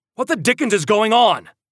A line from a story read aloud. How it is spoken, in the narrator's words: father shouted